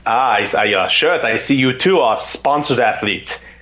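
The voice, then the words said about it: Put-on German accent. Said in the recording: “it's this German accent.”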